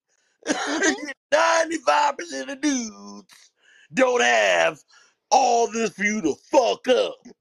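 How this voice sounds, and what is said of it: Imitates another person's voice. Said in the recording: “In my Cat Williams voice,”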